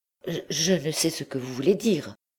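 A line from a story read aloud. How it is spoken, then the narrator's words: Stammering. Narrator (French): balbutia Blétry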